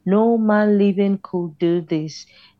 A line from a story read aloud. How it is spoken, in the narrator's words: they said